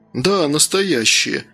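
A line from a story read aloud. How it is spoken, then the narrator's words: Muffled strained priest. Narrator (Russian): произнес священник как-то глухо, будто через силу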